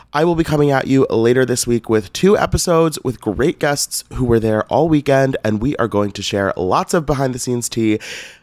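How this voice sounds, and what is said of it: Raspy, slightly hoarse voice. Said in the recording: “I sound a little raspy right now, it's because I am fresh off of 3 incredible days at BravoCon”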